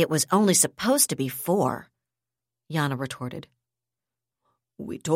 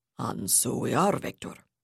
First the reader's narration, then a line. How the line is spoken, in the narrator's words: Zilwicky rumbled